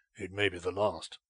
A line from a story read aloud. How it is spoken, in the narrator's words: he said to himself grimly